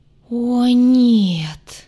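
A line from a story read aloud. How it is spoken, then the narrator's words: Sudden groan from healer. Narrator (Russian): внезапно застонал целитель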